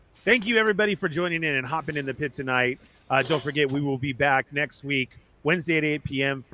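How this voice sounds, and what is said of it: Announcer-style voice. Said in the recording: “you've got the announcer voice”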